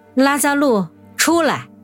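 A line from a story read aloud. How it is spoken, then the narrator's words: Loud shout. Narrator (Chinese): 他便大声呼喊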